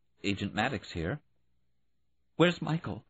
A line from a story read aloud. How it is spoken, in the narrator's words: Judy tried to make her voice calm and said